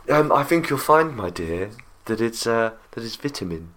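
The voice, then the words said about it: Very posh put-on accent. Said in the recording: “As long as you say it in a very posh accent.”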